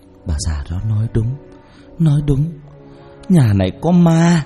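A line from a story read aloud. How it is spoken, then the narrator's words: Moaning. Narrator (Vietnamese): Bà Loan rên rỉ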